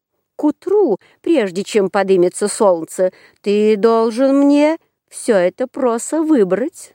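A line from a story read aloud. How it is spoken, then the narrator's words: Plain. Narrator (Russian): сказала она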